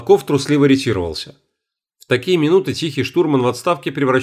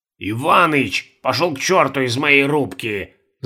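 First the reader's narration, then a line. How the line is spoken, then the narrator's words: Angry growl. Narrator (Russian): зарычал на него Фабьев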